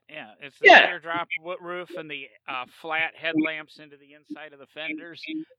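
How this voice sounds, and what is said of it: American accent. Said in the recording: “I use my Yankee accent for those.”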